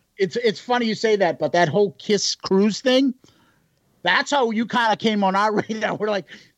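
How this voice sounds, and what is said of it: Boston accent. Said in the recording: “you guys have just ridiculous accents ... Boston was here first, so our accents are correct”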